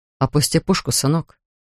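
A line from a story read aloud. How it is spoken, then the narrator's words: Quiet request. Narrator (Russian): тихо попросил Линкольн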